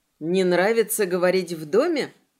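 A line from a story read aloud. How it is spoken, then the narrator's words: Snorting. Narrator (Russian): Эдди хмыкнул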